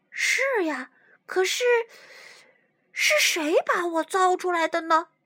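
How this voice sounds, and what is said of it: Soft, quiet voice. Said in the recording (Chinese): “小声回答”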